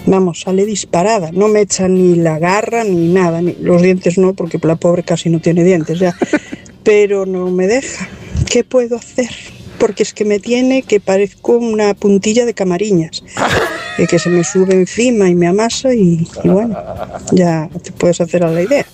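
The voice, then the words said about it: Speaks with a noticeable regional accent. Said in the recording (Spanish): “me encanta tu acento”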